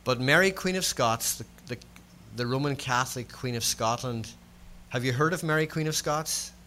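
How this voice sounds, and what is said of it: Scots-Irish accent. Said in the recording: “If you're trying to work out my accent is Scots-Irish. ... I'm a Scotsman who was born in the north of Ireland.”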